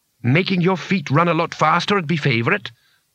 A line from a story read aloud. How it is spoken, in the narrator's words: said Bethan grimly